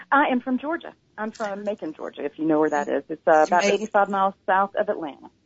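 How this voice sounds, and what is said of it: Southern American drawl. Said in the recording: “your wonderful, wonderful southern drawl that you have”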